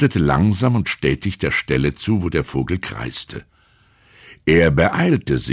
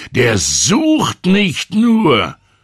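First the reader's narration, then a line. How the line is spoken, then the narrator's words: Loud old man. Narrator (German): sagte der alte Mann laut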